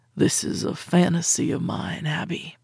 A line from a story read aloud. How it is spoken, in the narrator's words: he said, his lips a hair's breadth from my lips, his voice a rumble